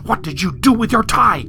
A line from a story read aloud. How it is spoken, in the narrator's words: she hissed